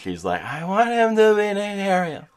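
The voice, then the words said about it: Imitates another person's voice. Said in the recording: “That's a good sister impression.”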